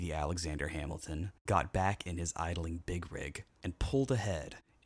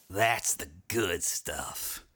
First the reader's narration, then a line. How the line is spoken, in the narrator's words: snarled